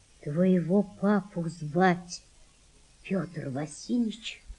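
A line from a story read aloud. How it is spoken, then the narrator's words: Mother's quiet voice. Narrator (Russian): сказала мать Валентины тихо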